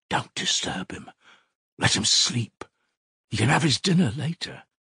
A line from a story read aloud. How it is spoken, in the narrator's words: Nastasya's whisper